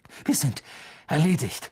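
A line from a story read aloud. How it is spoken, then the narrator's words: Groaning in despair. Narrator (German): stöhnte, als das Dach einbrach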